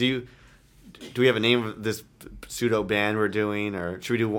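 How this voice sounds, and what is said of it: Usual voice. Nothing is said of it.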